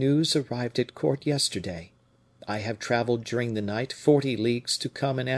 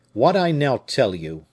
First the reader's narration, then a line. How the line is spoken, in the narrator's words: added he coldly